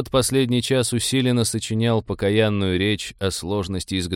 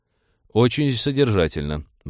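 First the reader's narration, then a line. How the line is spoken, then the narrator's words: Sighing. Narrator (Russian): вздохнул капитан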